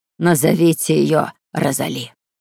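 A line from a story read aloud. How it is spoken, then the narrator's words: Quiet but commanding. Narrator (Russian): Повитуха произнесла своим тихим, но властным голосом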